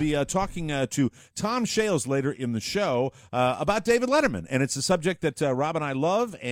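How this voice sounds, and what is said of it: Usual voice. Nothing is said of it.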